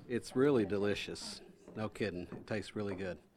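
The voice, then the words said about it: Southern American accent. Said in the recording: “from the south side of the States, from Tennessee ... I love having that accent talk about soda cake.”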